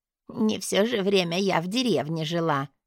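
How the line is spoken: Old woman's displeased grumble. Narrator (Russian): недовольно буркнула старушка

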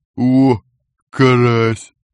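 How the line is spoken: Deep bass, weary. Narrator (Russian): пробасил копыта, которому явно опостылило мотаться под усиливающимся снегопадом

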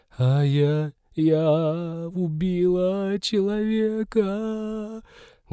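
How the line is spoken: Muffled sobbing. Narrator (Russian): Глухо рыдала Ивета ей в грудь

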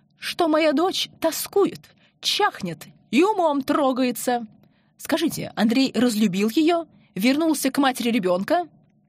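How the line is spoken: Passionate exclamation. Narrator (Russian): горячо воскликнула Анна Дмитриевна

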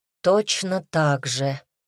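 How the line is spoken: Sighing. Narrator (Russian): вздохнул Дима

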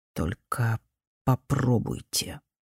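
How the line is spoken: Quiet, measured. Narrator (Russian): Лю Цзяоху тихо с расстановкой проговорил

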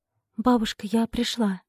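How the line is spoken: Quiet. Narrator (Russian): тихо сказала Поля

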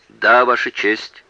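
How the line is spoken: Plain. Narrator (Russian): ответил мистер Бернард

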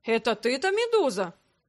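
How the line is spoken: Exclaiming. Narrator (Russian): воскликнул Андре

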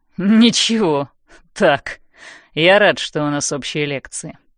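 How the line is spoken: Mocking. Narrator (Russian): насмешливо говорит он

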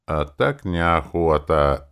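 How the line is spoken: Slightly mocking drawl. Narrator (Russian): чуть насмешливо протянул я

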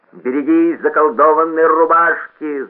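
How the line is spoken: Terrifying scream. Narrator (Russian): завопил страшный голос

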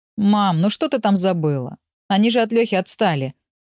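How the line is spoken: Grumbling. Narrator (Russian): ворчал

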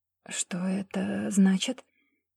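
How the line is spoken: Quiet fearful question, girl. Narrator (Russian): Сглотнув подступивший к горлу ком страха, девушка тихо спросила

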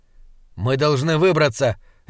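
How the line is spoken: Sharp. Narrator (Russian): резко сказал Слудик

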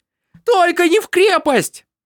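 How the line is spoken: Screaming. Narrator (Russian): завопила она

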